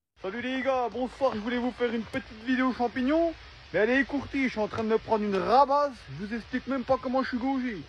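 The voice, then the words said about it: Strong regional French accent. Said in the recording (French): “il faut avoir une maîtrise en accent régional”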